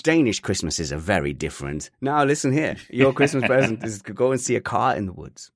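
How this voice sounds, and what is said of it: Generic European accent. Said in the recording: “that's my generic European accent.”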